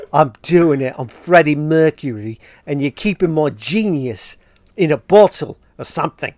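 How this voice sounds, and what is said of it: Put-on Australian accent. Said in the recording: “that's a good accent, bro ... That's my Australian accent.”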